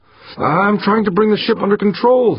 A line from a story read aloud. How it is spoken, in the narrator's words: the pilot yelled, her voice edgy, nearing panic